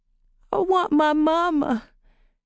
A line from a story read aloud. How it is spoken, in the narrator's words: Tidbit whimpered